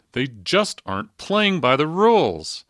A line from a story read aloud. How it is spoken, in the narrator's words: When his hoped-for answer didn't appear, he shouted